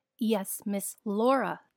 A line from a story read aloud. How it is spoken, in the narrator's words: the guard shouted to the child